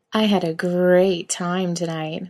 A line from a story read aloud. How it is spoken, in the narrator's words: Misha purrs, playing it up